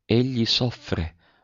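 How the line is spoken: Murmured. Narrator (Italian): mormorò

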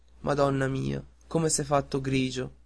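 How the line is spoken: Soft. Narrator (Italian): disse piano

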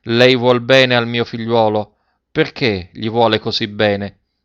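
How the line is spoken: Sad, affectionate voice. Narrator (Italian): gli disse con voce triste e affettuosa

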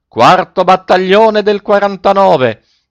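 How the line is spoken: Panicked yell. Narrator (Italian): Coretti perdé la testa e urlò

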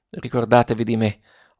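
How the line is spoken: Faint breathy murmur. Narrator (Italian): mormorò ancora il ragazzo con una voce che pareva un soffio

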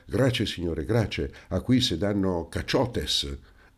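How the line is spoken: Exclaimed. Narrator (Italian): esclamò il Paleari

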